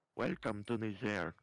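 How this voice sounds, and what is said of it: Put-on French accent. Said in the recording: “a French accent”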